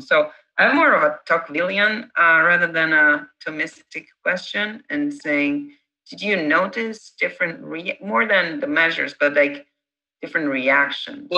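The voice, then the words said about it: Italian accent. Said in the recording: “my funny accent comes from my um, origin... I'm the Italian”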